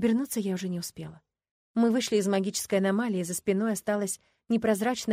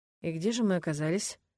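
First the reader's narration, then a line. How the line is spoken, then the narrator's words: Thoughtful mutter. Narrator (Russian): задумчиво пробормотал Ленард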